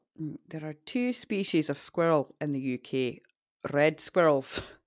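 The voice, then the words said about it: Scottish accent. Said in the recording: “Squirrel's really hard to say in a Scottish accent.”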